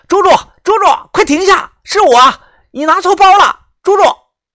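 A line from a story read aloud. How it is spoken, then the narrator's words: Loud shout. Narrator (Chinese): 我摇下玻璃大喊道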